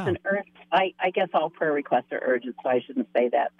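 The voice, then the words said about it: Voice affected by a cold. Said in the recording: “I'm getting older over a summer cold, so my voice is a little.”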